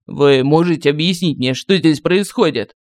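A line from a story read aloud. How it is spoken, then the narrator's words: Mocking. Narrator (Russian): насмешливо сказала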